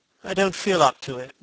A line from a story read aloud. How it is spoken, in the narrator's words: said Dorian wearily